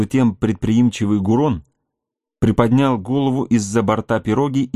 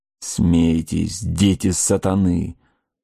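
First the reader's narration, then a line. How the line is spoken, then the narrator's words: Muttered. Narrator (Russian): пробормотал разведчик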